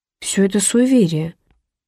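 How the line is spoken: Uncertain. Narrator (Russian): неуверенно проговорила Эленор

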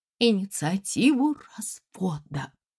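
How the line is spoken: Muffled tearful whisper. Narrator (Russian): прошептала Надежда Петровна, окунув нос в платок

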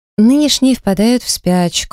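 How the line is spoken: Plain. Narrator (Russian): ответила Замайка

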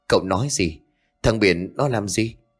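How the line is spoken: Stammering question. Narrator (Vietnamese): Ông liền lắp bắp hỏi

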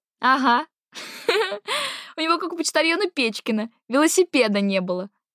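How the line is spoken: Laughing. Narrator (Russian): засмеялась Дарина

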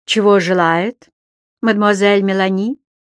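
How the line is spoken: Icy inquiry. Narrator (Russian): осведомился тот ледяным тоном

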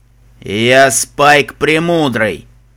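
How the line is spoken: Slightly quieter but loud dragon. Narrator (Russian): Немного тише, но все еще громко ответил черный дракон

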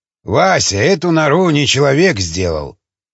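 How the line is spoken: Grumbled. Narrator (Russian): проворчал Жуковский

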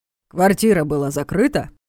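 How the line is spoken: Sternly asked. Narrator (Russian): строго уточнил Войтович

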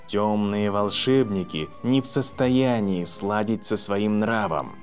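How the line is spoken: Quiet. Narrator (Russian): тихо произнес Квирилл

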